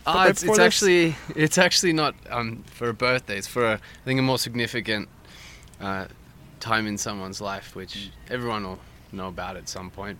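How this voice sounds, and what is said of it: Australian accent. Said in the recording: “You're from Australia, as people can probably tell from the accent.”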